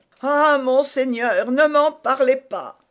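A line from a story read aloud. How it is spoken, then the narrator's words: Tearful exclamation. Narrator (French): s'écria l'hôte de son ton de voix le plus larmoyant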